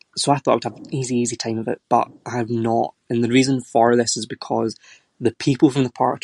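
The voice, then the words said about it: Soft, neutral Glaswegian Scottish accent. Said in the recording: “my accent is much softer and more neutral for a Glaswegian ... have a very guttural pronunciation of certain words”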